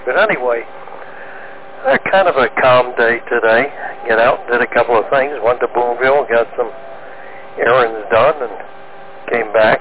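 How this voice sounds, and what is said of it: Slightly hoarse voice. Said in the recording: “I swallowed wrong a little bit ago, so I'm kind of hoarse a little bit. It went down the wrong way.”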